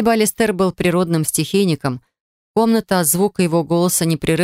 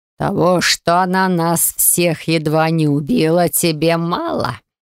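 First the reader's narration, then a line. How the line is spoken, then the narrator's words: Hiss. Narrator (Russian): прошипел лорд Тиор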